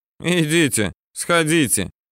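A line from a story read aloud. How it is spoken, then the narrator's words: Snide agreement. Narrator (Russian): ехидно соглашается Юрка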